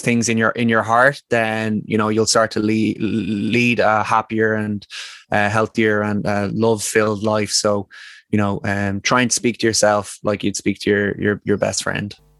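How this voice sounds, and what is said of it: Irish accent. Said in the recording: “someone with an Irish accent”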